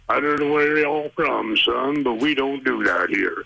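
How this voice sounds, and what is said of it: Deep Southern drawl. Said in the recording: “a deep southern drawl”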